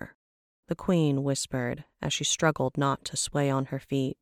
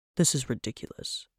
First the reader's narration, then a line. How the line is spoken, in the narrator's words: Trevac murmured